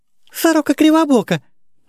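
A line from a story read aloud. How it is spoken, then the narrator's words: Snail's laughter. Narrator (Russian): засмеялась улитка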